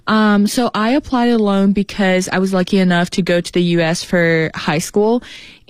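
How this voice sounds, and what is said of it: Slight Boston accent. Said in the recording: “You got a little bit of Boston accent”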